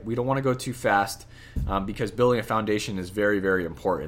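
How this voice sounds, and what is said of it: Strained, failing voice. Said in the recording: “losing my voice.”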